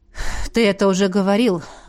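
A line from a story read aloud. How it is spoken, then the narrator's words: Sighed. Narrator (Russian): вздохнул Эдмунд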